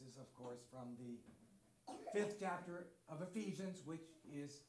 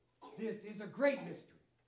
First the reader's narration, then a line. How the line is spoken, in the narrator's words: cried out in amazement